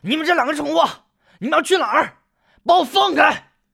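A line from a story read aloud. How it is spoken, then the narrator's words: Struggling, shouting. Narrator (Chinese): 包康一边扭动着身体挣扎，一边大喊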